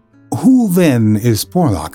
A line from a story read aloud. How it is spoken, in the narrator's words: I asked